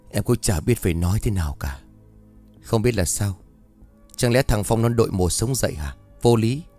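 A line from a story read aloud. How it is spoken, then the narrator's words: Sighing woman. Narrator (Vietnamese): cô liền thở dài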